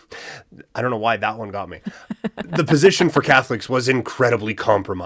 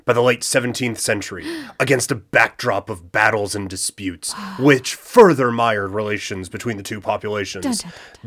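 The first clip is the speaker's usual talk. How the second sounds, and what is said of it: Dramatic narrating voice. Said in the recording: “Dramatic voice.”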